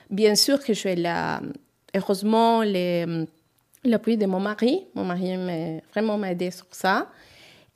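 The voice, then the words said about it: Non-native accent speaking French. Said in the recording (French): “je sais que j'ai un accent, je sais que je peux améliorer”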